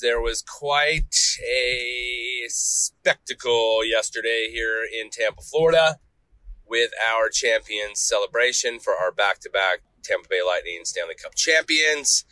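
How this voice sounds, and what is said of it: Slightly nasal voice. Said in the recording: “I sound a little nasally”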